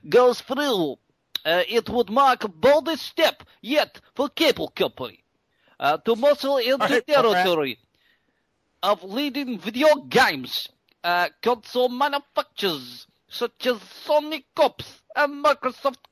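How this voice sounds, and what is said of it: Put-on Russian accent. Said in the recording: “accent please... Russian.”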